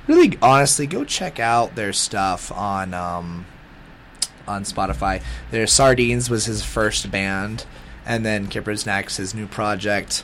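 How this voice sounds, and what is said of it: Raspy, sick-sounding voice. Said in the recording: “I hope you could deal with my raspy voice. ... Sickness, man”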